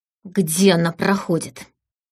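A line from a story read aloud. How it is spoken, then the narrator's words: Growled. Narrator (Russian): прорычала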